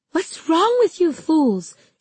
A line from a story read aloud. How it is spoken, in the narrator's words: she yelled